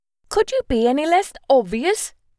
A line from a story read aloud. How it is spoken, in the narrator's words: I snapped